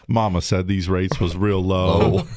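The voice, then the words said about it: Forrest Gump impression. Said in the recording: “like some kind of ... Boris Gump”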